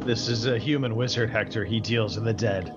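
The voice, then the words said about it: Character voice of wizard Hector. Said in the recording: “I don't know why I suddenly sounded like I'm Hector ... good impression”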